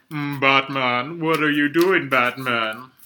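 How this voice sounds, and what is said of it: Poor imitation of a character voice. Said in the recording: “That's a bad impression. That's not how it sounded.”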